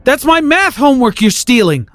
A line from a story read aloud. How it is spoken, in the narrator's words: I yelled after him